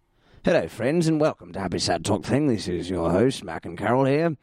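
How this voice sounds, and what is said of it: Hoarse, rough raspy voice. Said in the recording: “my horrible-sounding voice this week... it sounds a bit like sandpaper on asphalt... My voice is a bit hoarse.”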